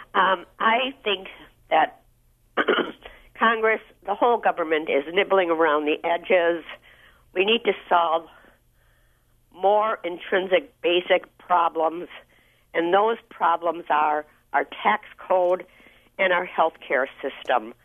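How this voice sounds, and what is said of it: Hoarse, froggy voice. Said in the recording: “I have a frog in my throat.”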